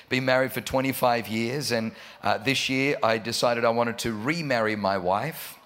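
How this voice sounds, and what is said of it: Australian accent. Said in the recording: “I got an Australian accent”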